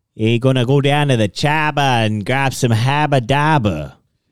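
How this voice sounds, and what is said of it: Put-on Boston accent, heavy R's. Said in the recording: “your best Boston accent? ... I think he just threw a bunch of R's in there.”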